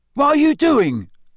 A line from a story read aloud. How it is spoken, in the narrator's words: yelled Cedric's voice